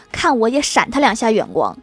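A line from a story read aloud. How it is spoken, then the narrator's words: Very annoyed. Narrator (Chinese): 欢喜甚是恼怒地说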